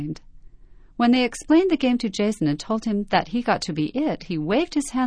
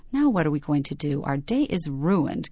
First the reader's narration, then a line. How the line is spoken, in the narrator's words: Keaton grumbled